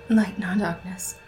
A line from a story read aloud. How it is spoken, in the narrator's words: she whispered